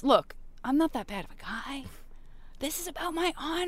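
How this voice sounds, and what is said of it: Impression of Prince Zuko. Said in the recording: “doing my impression of Prince Zuko”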